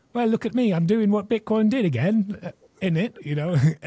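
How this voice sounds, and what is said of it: Put-on Australian or British accent. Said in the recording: “did you just give Danny an Australian a British accent? ... My Australian accent isn't as good”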